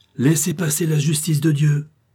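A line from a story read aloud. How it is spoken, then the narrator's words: Shouted loudly. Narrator (French): cria-t-il à haute voix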